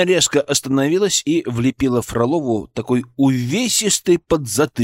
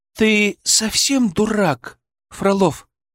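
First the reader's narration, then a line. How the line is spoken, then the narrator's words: Indignant hiss. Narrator (Russian): возмущенно зашипела она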